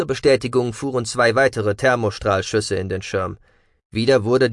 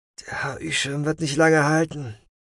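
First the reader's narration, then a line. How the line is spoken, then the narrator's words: Mumbling. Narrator (German): nuschelte er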